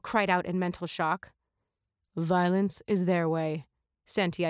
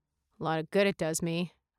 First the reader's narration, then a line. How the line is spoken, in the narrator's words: I muttered out loud